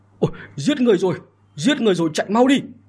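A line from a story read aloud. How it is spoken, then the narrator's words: Sudden panicked scream. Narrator (Vietnamese): không biết ai đột nhiên hét lên một câu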